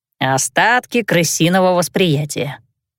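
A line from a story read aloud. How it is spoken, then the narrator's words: Smirking grunt. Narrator (Russian): хмыкнул Гонза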